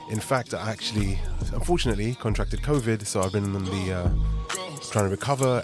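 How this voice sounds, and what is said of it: Sick, under-the-weather voice. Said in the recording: “you can probably tell by my voice, I've been really under the weather over the last couple of days.”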